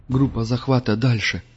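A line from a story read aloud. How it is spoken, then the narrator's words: Grim local man. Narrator (Russian): мрачно сказал один из местных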